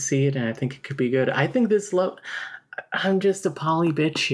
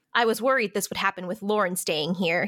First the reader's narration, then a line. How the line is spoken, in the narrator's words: he says bitterly